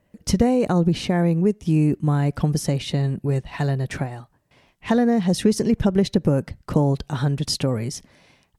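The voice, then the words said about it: Slightly husky voice. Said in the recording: “please excuse my slightly husky voice. I've got a bit of a cold today”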